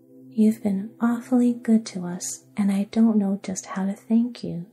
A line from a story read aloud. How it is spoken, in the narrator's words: said Trot earnestly